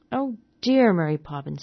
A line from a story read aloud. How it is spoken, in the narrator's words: said Michael bitterly